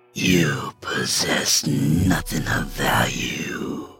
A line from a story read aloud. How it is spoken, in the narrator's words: hissed Spider